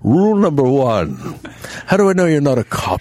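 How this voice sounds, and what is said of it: Poor impression of another person's voice. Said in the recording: “This is such a bad impression.”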